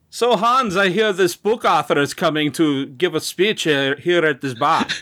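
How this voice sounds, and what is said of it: Put-on accent. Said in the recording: “Give me a break on the accent.”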